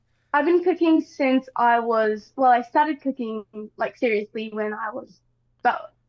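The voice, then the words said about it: New Zealand accent. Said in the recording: “you have a New Zealand accent.”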